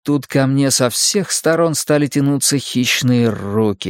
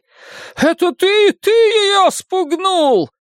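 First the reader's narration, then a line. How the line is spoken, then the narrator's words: Angry creature shout. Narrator (Russian): гневно крикнул голосом одной из этих тварей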